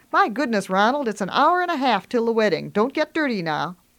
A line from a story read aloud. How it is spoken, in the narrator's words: Grandma exclaims